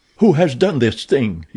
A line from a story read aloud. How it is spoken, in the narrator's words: cried